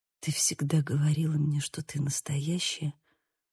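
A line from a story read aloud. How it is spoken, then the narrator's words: Whisper. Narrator (Russian): прошептал он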